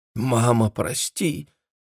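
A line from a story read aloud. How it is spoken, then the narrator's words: Barely audible murmur. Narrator (Russian): еле слышно, почти шепотом пробормотала Джессика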